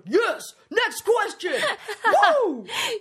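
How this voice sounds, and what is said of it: Loud cheering like a sports fan. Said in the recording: “I sound like a football, like, fan in the background.”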